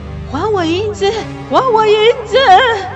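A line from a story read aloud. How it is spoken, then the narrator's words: Breathless, panting. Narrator (Chinese): 气喘吁吁的，他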